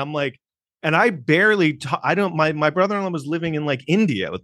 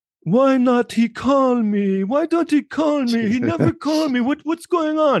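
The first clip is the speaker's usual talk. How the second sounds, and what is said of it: Imitated Jamaican accent. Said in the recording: “she's Jamaican... I might do her voice and she has an accent.”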